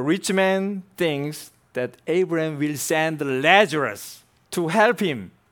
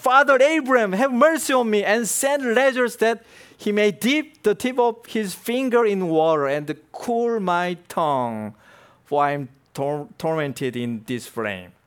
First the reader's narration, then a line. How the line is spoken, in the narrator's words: Then he cried and said